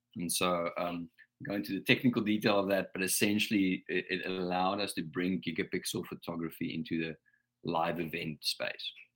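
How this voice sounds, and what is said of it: South African accent. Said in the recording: “As you can pick up from the accent, not from around here. So I'm a South African”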